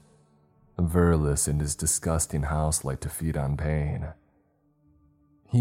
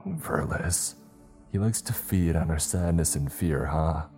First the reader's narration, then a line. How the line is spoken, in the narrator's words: I sighed